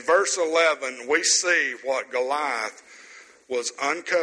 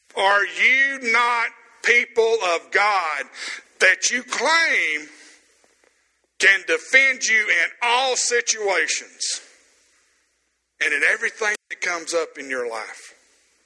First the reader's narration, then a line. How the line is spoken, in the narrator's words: Goliath screaming at him, shouting